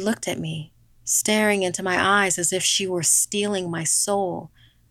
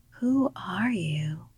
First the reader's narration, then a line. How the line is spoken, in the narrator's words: she whispered